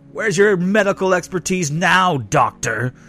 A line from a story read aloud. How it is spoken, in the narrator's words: yelled Dunn